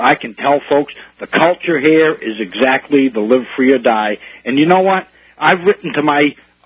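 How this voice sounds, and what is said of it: New England accent. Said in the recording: “you're a sincere guy with a New England accent ... I happen to have a New England accent”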